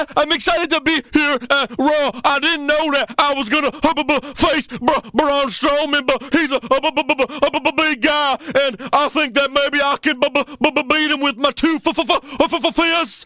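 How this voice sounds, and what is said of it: Imitates a wrestler being interviewed. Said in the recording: “I'd rather do my impression of the jobber being interviewed by Byron Saxton.”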